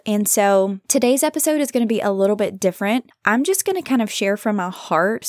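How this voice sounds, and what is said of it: Tired, defeated-sounding voice. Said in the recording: “I don't know if you can hear it in my voice, but I've been feeling tired, somewhat defeated”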